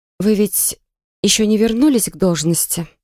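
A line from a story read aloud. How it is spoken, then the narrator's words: Feigned calm question. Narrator (Russian): Деланно спокойно поинтересовалась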